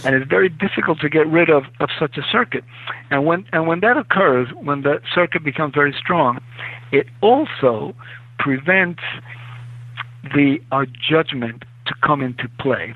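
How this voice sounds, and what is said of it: Speaks with a foreign accent. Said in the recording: “It's my accent thing, I'm sorry.”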